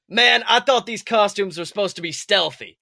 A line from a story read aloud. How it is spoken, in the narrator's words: Finnick yells